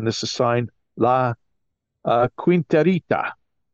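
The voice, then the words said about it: Slight put-on accent. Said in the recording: “I add a little accent there for Victor for some drama.”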